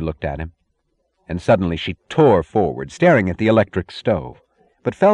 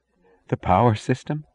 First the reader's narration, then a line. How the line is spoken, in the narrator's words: said, choking